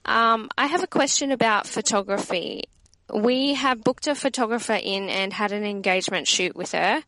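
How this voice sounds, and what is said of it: Australian accent. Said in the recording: “it's really nice to hear another Aussie accent”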